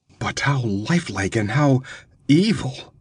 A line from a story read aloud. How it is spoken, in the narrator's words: she whispered